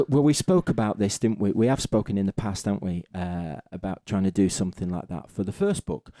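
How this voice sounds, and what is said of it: Silky accent. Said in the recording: “that silky accent of yours”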